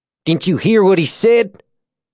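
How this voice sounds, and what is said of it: Tennessee accent. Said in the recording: “his accent, pure Tennessee.”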